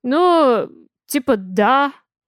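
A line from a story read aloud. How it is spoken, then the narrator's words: Uncertain reply. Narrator (Russian): Неуверенно отзывается Кастет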